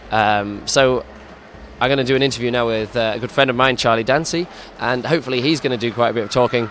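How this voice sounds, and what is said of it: Hoarse, worn-out voice. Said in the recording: “My voice is completely shattered.”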